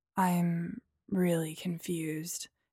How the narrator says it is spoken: he slurred

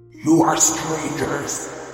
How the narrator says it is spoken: boomed the giant, with a voice like thunder echoing around the mountains

